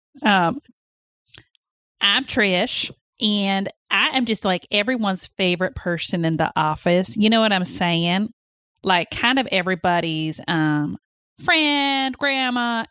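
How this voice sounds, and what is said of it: Attempted Southern US accent. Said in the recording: “I am going to be attempting a Southern accent today ... It is going to be what I can only describe as casually offensive.”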